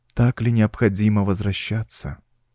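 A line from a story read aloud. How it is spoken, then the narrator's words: Sad pleading question. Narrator (Russian): печально спросила Мариамис с ноткой мольбы в голосе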